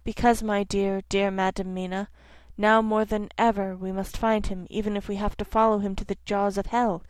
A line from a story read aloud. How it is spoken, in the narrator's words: said sorrowfully